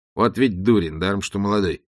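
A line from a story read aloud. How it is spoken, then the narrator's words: Muttered. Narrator (Russian): пробормотал он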